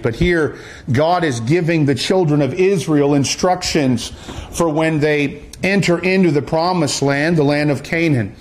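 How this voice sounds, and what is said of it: Canadian accent. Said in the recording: “you can tell I'm not from these parts... That's how we say it up north in the Canadian parts. And you'll probably get that accent a little bit tonight.”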